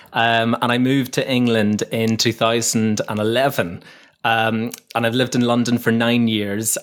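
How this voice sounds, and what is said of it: Northern Irish accent. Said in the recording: “I don't know if you can tell by the accent or not, but I'm from Northern Ireland originally.”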